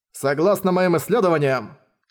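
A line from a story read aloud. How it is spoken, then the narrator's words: Plain. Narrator (Russian): сказал Янь Сун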